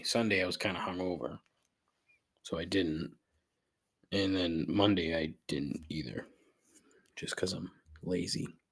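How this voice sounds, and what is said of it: Rough, unwell-sounding voice. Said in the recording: “I don't know why my voice is so shitty today, but it's not ideal. Probably because I just got back from Florida. So who knows what I caught”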